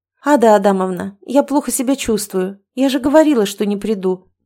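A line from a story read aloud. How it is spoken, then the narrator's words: Soothing sigh. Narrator (Russian): умиротворяюще вздохнула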